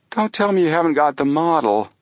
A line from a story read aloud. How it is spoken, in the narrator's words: Chet groaned